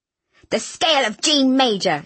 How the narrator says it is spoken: she had shrieked

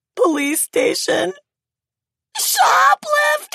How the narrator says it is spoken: she wailed

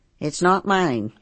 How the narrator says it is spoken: I says, and my voice was as calm as it would have been if he asked me what I was watching on TV and I told him

